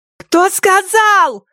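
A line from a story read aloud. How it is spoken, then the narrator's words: Yelled. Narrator (Russian): завопила Кеа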